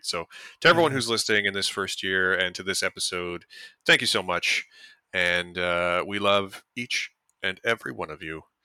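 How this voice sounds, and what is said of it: Smooth radio announcer voice. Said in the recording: “I'm trying to say that with my most radio voice ever.”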